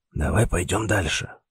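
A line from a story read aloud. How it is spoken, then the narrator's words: Still whispering, suggesting. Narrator (Russian): все так же шепотом предложил профессор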